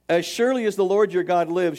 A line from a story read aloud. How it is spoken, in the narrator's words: she replied